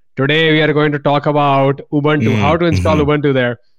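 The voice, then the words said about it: Indian accent. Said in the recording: “in my Indian accent, the original accent”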